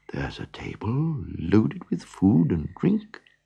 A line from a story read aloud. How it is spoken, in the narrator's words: whispered the donkey